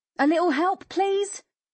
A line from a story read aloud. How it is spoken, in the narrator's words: her mum shouted from the front door